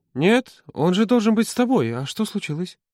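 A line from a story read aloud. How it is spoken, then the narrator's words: Sigh, then blurted. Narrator (Russian): Володя вздохнул и выпалил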